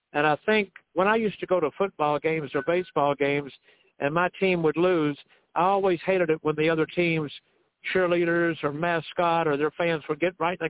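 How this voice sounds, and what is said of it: Southern American accent. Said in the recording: “having a Southern accent”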